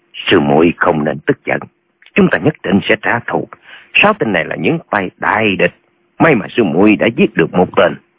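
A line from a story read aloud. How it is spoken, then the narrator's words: Soft quiet voice. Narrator (Vietnamese): Nhạc Bất Quần nói khẽ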